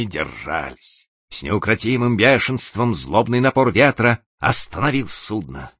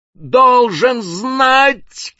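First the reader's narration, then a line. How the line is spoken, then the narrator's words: Shouted reply. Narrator (Russian): крикнул в ответ капитан Маквир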